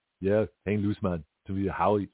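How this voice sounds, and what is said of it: Weak put-on Hawaiian accent. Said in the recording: “I got to work on my Hawaiian accent.”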